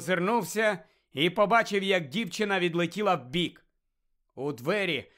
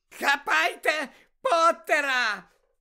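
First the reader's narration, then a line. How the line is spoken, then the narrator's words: Shrieked. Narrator (Ukrainian): заверещала Белатриса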